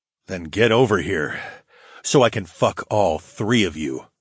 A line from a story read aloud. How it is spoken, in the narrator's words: growled